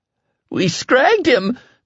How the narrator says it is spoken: the PFC cried hysterically

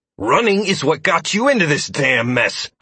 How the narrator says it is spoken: I hissed at the man angrily

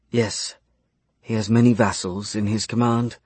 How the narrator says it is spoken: Arya whispered

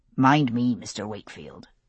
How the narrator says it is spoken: Abernathy said, his voice low enough not to be heard over the crowd

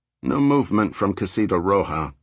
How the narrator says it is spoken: Clark said, his voice cool and detached, as if they were still on routine surveillance

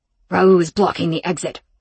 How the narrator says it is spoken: Rome spat back

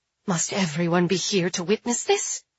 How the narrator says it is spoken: Genevieve hisses

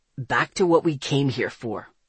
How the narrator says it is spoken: Zeke growled

